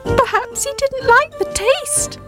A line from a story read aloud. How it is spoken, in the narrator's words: Squeak shouted cheekily